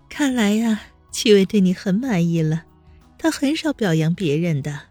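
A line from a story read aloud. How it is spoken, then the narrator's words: Soft, sweet giggle. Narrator (Chinese): 黎月掩嘴笑道，声音软软糯糯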